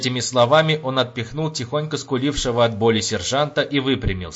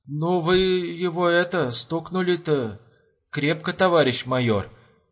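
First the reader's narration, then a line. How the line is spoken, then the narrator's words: Embarrassed mumble. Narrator (Russian): Промямлил, не зная, куда деть глаза рядовой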